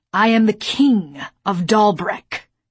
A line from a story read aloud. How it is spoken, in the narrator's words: he growled